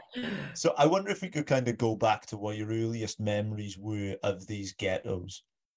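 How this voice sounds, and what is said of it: Strong Welsh accent. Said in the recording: “I've got a very strong Welsh accent.”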